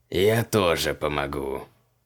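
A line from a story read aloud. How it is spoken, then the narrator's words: Purring. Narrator (Russian): промурлыкал Бат-Крилах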